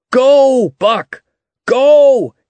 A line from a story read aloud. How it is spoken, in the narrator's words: shouted above the roar of the water